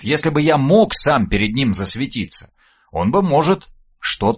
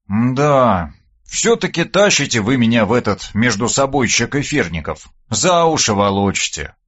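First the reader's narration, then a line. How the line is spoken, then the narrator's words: Sighing. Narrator (Russian): вздохнул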